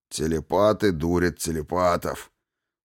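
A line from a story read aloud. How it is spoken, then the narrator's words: Snort. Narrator (Russian): фыркнул с заднего сиденья Грей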